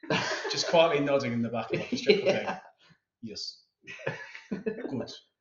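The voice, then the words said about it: Attempted Finnish accent, Kimi Raikkonen impression. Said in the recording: “your official finish accent? ... I actually don't know what a Finnish accent sounds like ... a Raikkonen impression”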